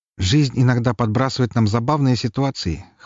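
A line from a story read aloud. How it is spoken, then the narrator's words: Snorting. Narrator (Russian): хмыкнул Лаврентий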